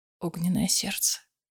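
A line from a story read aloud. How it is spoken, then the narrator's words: Whisper. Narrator (Russian): прошептал он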